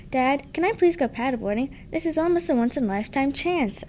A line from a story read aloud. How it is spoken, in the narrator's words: whined